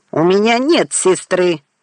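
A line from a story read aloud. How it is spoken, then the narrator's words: Angry bark. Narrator (Russian): рявкнул Орло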